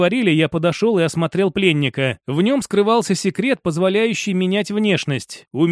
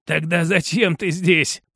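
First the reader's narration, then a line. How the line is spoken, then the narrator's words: Rasping. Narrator (Russian): прохрипел он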